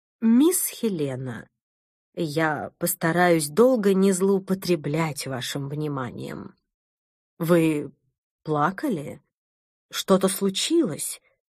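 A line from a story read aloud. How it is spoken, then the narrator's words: Calm voice. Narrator (Russian): произнесла она спокойным голосом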